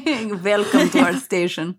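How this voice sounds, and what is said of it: Put-on Russian accent. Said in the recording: “I love the Russian accent”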